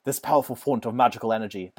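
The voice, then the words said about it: Put-on Australian-sounding accent. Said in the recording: “let me do a British accent. ... That was Australian.”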